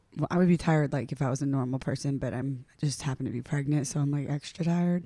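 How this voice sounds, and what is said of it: Raspy, hoarse voice. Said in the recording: “people just like lose their voice... I just like had no voice yesterday... at night, it gets like crispy again... A little raspy.”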